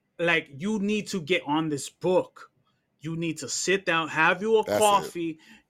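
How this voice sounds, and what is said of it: Put-on New York accent. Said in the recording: “Let me do it in my New Yorker voice”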